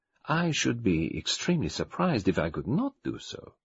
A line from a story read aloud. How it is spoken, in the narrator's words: said Poirot calmly